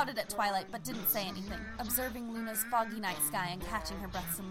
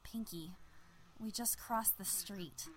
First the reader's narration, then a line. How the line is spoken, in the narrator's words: Twilight mumbled in a grim tone